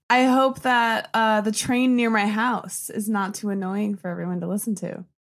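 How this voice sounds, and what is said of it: American accent. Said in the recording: “I'm getting an American accent.”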